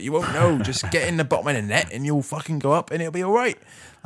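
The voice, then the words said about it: Put-on West Country accent. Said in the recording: “in this West Country accent.”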